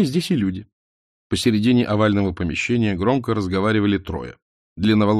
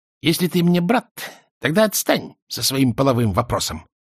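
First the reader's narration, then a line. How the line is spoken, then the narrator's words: Angry husky female voice. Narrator (Russian): сердито говорила она хрипловатым голоском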